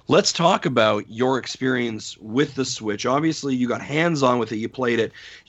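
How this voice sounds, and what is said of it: Hoarse, strained voice. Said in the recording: “I'm losing my voice. So excited for you, I'm losing my voice.”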